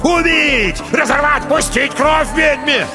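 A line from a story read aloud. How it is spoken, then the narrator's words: Crowd shouting. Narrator (Russian): Люди кричали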